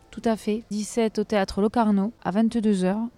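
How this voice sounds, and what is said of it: Put-on southern French accent. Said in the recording (French): “pourquoi tu prends un accent du Sud ? ... je parle avec l'accent du Nord et avec l'accent du Sud”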